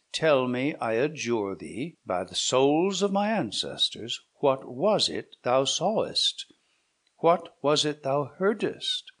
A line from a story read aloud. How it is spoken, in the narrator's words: said Manfred in a solemn tone of voice